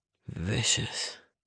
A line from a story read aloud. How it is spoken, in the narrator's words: he rasped